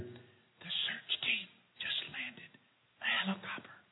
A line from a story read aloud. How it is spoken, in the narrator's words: Now truly apprehensive, again whispering, the child answered